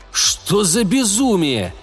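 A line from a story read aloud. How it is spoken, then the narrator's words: Loud speech. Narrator (Russian): громко проговорил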